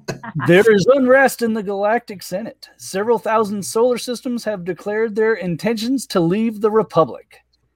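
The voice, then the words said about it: Radio announcer voice. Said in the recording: “my radio announcer voice”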